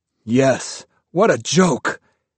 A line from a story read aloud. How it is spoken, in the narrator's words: He shouted